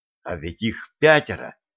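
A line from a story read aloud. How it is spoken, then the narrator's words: Agitated whisper. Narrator (Russian): Вдруг он будто осекся и от волнения зашептал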